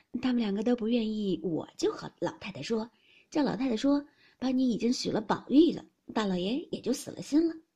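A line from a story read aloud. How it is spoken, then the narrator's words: Laughing. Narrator (Chinese): 袭人笑道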